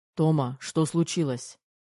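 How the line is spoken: Frightened, demanding bark. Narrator (Russian): требовательно рявкнул Кир, испугавшись до чертиков

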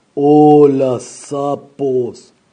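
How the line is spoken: Roaring monster. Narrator (Spanish): rugió el monstruo

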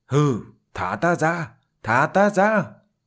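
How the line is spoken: Loud shout. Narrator (Vietnamese): Linh hồn Huỳnh Thiên hét lớn

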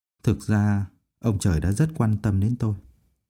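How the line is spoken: Gentle voice. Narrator (Vietnamese): Phương Mộc nhẹ nhàng nói

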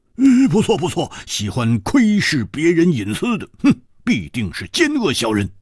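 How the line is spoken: Loud. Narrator (Chinese): 蝴蝶花大声说

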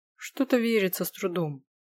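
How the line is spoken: Grumbling. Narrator (Russian): проворчал Дорин

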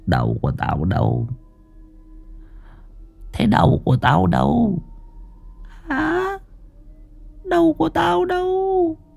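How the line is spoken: Faint ghostly mumbling. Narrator (Vietnamese): bóng Hoàng Anh lẩm bẩm lí nhí trong miệng

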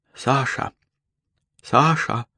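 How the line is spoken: Whisper. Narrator (Russian): услышал он шепот

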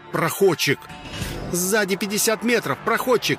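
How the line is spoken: Shouted out. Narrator (Russian): выкрикнула Алиса

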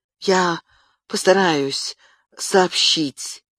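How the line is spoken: Strained, choked voice. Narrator (Russian): сдавленным голосом произнес адвокат

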